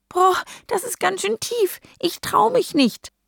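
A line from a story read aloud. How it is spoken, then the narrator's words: Frightened squeak. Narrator (German): piepst erschrocken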